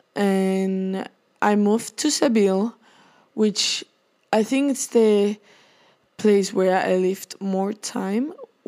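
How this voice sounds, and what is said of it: Spanish-accented English. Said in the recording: “I was born in the Basque Country, which is in Spain. I'm a Spanish person, and I don't know if you can tell from my accent, which I don't think I have, but some people say it.”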